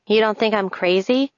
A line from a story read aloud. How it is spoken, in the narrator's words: laugh